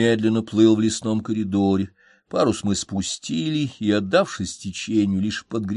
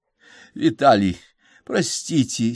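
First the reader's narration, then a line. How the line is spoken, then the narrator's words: Hoarse voice. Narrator (Russian): сипло подала голос Надежда Николаевна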